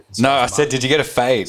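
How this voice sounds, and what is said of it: Broad Australian Victorian accent. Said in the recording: “I spoke Bogan Victorian ... he just dropped straight back into his I'm eating a meat pie at the VFL accent”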